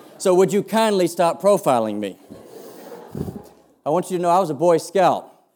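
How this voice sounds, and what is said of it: Accent sounding like George W. Bush. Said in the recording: “my accent sounds a bit like George W. Bush”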